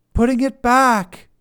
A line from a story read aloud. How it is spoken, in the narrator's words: Rena hollers back